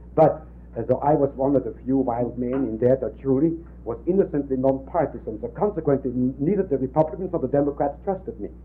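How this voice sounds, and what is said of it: Speaks with an accent. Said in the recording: “my accent didn't help either”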